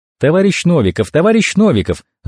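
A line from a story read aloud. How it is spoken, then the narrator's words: Rapid chatter. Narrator (Russian): затараторила одна блондинка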